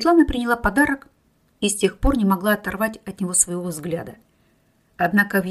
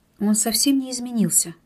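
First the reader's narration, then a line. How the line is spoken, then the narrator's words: Indistinct mumbling goddess. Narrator (Russian): невнятно пробормотала богиня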